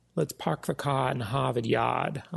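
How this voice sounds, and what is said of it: Put-on Boston accent. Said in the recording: “I love that Boston accent.”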